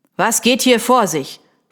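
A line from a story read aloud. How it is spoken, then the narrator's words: Commanding demand. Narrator (German): verlangte er mit gebieterischer Stimme zu wissen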